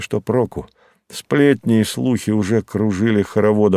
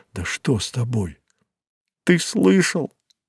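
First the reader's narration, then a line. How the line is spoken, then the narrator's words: Sobbing, gasping. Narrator (Russian): Она всхлипнула, хватая ртом воздух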